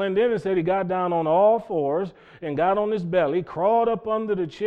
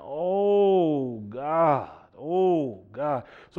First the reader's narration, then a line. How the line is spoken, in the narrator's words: The pastor ... just groaning, just saying